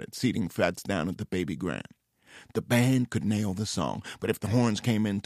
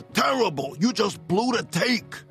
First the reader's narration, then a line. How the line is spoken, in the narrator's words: Cosmo shouted